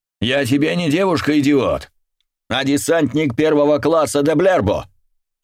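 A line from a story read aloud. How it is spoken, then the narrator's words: Barked. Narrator (Russian): рявкнула она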